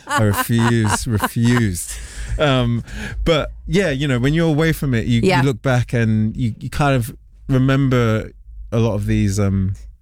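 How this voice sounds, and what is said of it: London accent. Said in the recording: “you've held on to your London accent”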